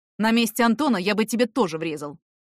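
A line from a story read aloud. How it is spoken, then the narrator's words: Angry. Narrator (Russian): сказал сердито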